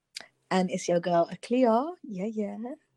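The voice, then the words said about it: Unusually soft, gentle voice. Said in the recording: “I don't know why I'm talking so... I don't know why my voice got so gentle, because that's not really how I sound.”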